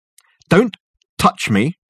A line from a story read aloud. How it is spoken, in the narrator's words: snapped Dirk